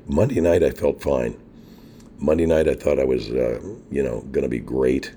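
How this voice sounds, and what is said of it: Hoarse half-whispered strained voice. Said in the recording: “I'm kind of whispering. I'm doing a half whisper, half talking thing here. ... You can hear that I still got a little bit of air. I'm pushing through my throat. ... I just had really bad laryngitis ... I can barely talk right now.”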